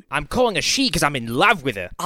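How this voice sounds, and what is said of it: Put-on Scottish accent. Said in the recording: “That was not Australian. ... That was Scottish. ... That was Scottish as fuck.”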